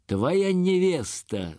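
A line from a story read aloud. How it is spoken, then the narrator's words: Shouted. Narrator (Russian): закричал Пугачев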